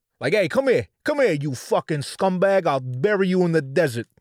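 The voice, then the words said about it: Put-on New York mobster accent. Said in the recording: “The closest thing to a cool white accent is like the New York, but that's also assumed like they're in the mob, like they're in the mafia.”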